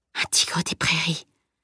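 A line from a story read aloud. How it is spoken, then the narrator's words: Murmur. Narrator (French): murmura-t-il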